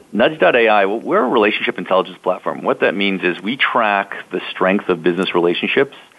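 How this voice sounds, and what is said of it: Canadian accent. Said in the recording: “my Canadian accent kick in ... I hear it already.”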